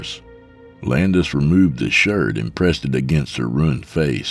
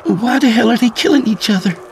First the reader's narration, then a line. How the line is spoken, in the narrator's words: Mary asked frantically